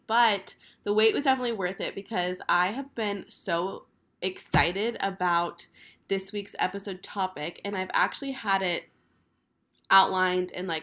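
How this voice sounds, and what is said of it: Deep, hoarse sick voice. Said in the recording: “sorry about my man voice ... I am sick ... My voice is still a little eh ... I'm sorry for the sick voice”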